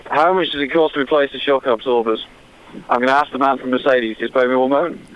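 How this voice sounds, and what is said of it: Hybrid northern English and London accent. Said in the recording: “I live in London, England, but I'm from the north of England originally, so it's a bit of a hybrid accent”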